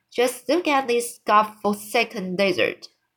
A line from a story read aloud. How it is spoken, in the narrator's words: he cried